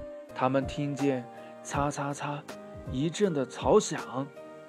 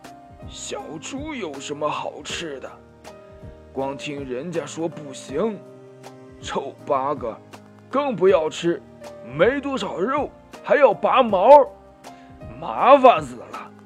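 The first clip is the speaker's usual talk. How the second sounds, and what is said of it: Rough, hoarse character voice. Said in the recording (Chinese): “一个又粗又哑的声音说”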